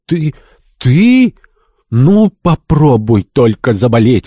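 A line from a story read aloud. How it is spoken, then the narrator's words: Effusive exclamation. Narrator (Russian): воскликнула милая, но чересчур экспансивная особа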